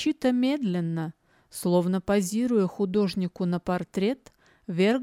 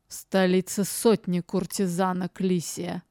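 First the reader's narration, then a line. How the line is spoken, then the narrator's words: Hoarse, strained, forced. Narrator (Russian): выговорил он хрипло, сдавленно, будто через силу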